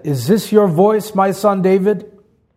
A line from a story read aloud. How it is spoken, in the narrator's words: Saul lifted up his voice and wept